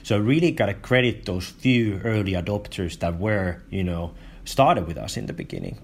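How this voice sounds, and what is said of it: Finnish-accented English. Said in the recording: “with a great Finnish accent”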